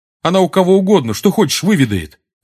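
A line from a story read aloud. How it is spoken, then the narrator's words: Sharp. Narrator (Russian): резко сказал ему Симус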